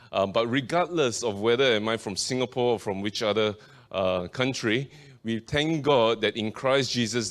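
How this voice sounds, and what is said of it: Singaporean accent. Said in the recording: “You probably could tell from my accent by now, I was originally from Singapore.”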